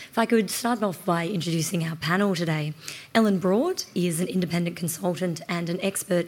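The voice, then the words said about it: Slightly hoarse voice. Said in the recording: “my voice, which is very slightly hoarse”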